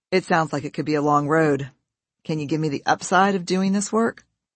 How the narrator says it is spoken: He laughed and said

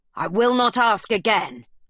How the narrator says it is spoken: bellows the captain

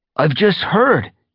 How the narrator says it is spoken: he gasped

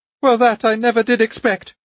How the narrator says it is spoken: cried Anna Andreevna

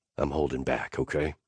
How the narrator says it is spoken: Nash muttered

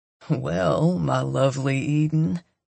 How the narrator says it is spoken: Coop drawls

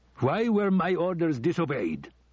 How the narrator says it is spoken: Saddam shouted

